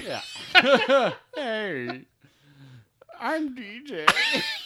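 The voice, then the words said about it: Imitates the character DJ. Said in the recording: “Such a good DJ impression.”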